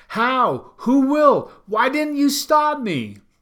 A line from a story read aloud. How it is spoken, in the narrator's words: I screamed back to her in my head